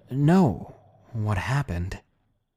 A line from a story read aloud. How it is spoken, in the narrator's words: She answered